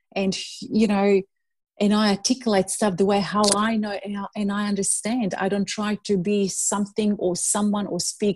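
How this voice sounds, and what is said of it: Non-native English accent. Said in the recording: “My English is not perfect at all ... I've been bullied with my English, with my accent.”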